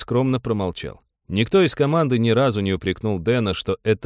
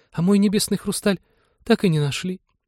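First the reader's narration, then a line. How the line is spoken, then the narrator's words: Sad sigh. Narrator (Russian): печально вздохнула Полина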